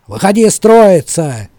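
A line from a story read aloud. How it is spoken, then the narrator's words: Shout. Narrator (Russian): заорал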